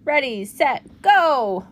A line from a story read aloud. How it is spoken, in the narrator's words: Juan shouted